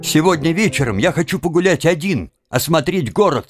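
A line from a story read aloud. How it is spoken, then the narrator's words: Sharp interruption. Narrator (Russian): резко перебил его Тим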